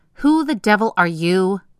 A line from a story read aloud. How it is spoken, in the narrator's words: shouted in patient's voice